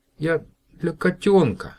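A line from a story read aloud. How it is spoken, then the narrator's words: Babbling. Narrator (Russian): лепетал Котька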